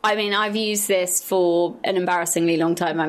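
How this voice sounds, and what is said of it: Usual voice. Nothing is said of it.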